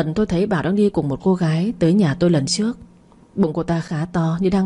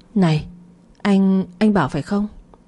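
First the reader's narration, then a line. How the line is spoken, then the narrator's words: Stammering. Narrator (Vietnamese): Lan ấp úng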